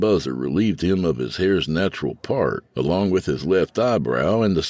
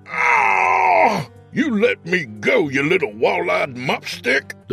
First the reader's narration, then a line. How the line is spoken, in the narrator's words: the man howled